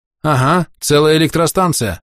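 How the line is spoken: Muffled voice under cloth. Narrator (Russian): Голос из-под шимаха звучал глухо

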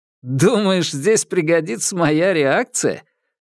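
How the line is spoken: Laughing. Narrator (Russian): рассмеялся

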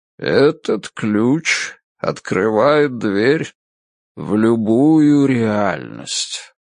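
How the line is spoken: Old man's deep melodic voice. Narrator (Russian): проговорил старик глубоким мелодичным голосом

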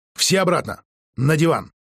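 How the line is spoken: Flat wooden voice. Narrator (Russian): Елена деревянным голосом сказала

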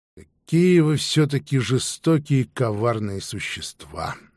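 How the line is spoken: Sighing. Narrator (Russian): вздохнула Мар

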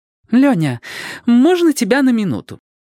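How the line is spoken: Sweet angelic voice. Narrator (Russian): Ангельским голоском осведомилась Ева

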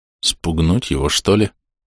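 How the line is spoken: Muttering. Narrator (Russian): пробормотал я

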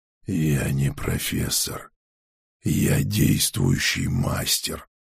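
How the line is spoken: Rasped. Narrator (Russian): прохрипел я

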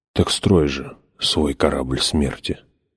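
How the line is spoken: Whisper. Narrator (Russian): прошептал он

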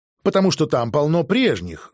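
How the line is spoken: Angry. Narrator (Russian): зло сказал я

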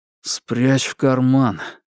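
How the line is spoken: Mumbled. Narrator (Russian): не открывая глаз, пробормотал Фрэнк

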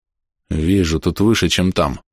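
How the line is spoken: Dejected. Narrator (Russian): уныло

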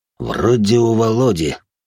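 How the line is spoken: Deep bass voice. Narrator (Russian): пробасил их старший

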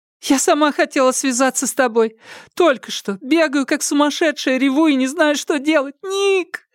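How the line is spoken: Words drowned in sobs. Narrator (Russian): Остальные слова утонули в рыданиях

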